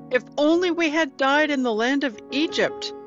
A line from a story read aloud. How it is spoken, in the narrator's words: the whole community shouted